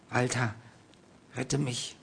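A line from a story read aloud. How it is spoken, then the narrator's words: Hasty, pleading. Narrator (German): Seine Worte klangen hastig und flehend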